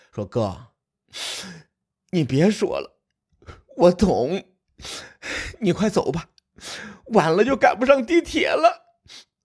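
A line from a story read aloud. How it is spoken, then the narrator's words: Crying. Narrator (Chinese): 韩觉哭着对程英说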